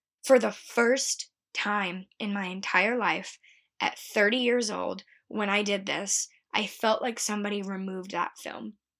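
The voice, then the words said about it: Emotional, moved voice. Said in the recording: “I'm getting emotional talking about it”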